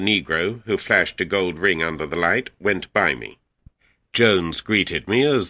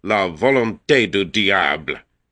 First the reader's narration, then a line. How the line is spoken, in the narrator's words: A voice from the landing above cried angrily